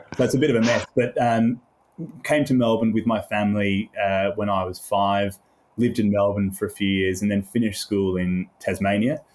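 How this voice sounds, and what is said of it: Mixed British-Australian accent. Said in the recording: “I've got a slightly, I don't know, mid-Indian Ocean accent”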